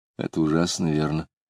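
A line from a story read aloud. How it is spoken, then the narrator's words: Hollow, muffled. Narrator (Russian): А Лидия сказала глухо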